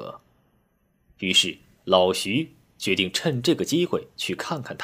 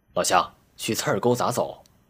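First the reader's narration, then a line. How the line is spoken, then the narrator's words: Hurried question. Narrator (Chinese): 急忙上前问道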